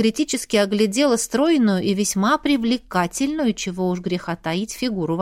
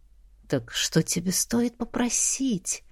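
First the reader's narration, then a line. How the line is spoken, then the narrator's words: Coaxing whisper. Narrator (Russian): вкрадчиво шепнула слабая женская натура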